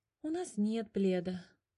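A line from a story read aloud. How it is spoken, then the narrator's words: Sighing. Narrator (Russian): вздохнул Котя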